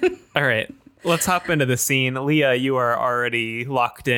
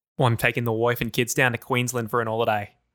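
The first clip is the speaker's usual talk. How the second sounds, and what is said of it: Put-on Australian accent. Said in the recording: “Are you guys going to try to do Australian accents?”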